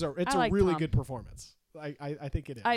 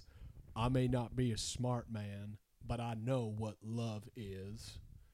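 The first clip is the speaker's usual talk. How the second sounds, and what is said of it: Forrest Gump impression accent. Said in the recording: “accent. ... Forrest Gump”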